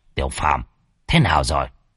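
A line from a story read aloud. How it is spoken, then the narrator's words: Old man, quiet voice. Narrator (Vietnamese): Lão nhỏ giọng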